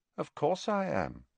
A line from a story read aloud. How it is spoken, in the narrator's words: said Harry calmly